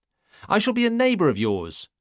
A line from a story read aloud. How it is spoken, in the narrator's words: had exclaimed, as though this were good news